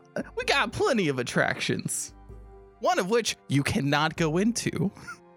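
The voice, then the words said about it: Put-on accent that keeps slipping. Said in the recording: “your accent keeps slipping”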